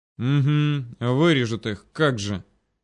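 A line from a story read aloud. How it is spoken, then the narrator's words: Annoyed through gritted teeth. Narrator (Russian): Процедил он с явно слышимой досадой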